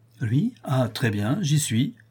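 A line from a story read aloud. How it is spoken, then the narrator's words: Plain. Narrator (French): dit Richard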